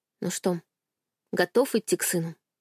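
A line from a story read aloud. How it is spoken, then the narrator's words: Gentle question. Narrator (Russian): ласково спросила я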